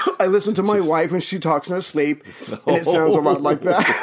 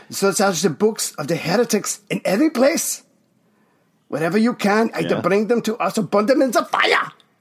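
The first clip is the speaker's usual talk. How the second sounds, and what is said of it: Put-on exaggerated Nazi-style accent. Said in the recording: “What fucking voice is that you're doing? ... It's my gay, Nazi gay, accent.”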